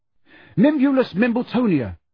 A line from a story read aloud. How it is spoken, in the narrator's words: he gasped at the fat lady